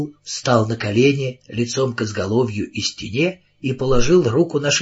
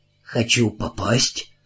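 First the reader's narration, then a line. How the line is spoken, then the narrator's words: Hoarse voice. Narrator (Russian): голос его был хриплым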